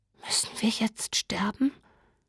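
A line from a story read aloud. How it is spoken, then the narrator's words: Whispering. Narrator (German): flüsterte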